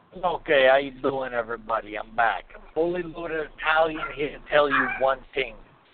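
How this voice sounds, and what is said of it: Put-on Italian accent. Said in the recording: “in your Italian voice”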